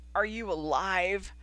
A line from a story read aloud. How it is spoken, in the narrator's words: Knight croaked